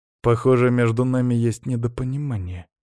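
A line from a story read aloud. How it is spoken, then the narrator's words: Cold, prince speaking. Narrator (Russian): холодно сказал принц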